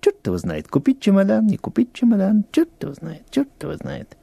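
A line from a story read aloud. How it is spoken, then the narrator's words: Muttering under breath. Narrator (Russian): он бормочет себе под нос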